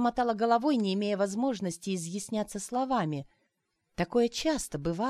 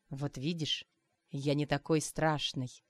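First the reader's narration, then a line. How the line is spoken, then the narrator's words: Whispering in ear. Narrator (Russian): зашептали мне на ухо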